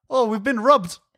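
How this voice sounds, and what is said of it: Put-on New Zealand accent. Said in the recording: “New Zealand ... In my mind, every Kiwi accent just replaces every vowel with a ooh.”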